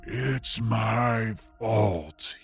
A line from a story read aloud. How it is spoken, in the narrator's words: he moans